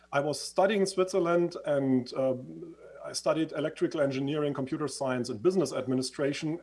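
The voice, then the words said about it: Swiss-influenced English accent. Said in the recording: “as you can hear from my accent, I used to live in Switzerland”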